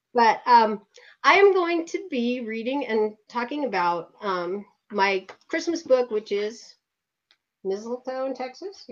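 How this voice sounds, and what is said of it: Congested, head-cold voice. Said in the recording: “caught that head cold ... So I'm a little better than that tonight. You can actually hear me.”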